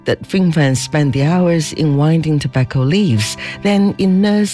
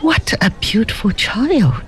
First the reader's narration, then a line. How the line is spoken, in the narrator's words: exclaimed the lady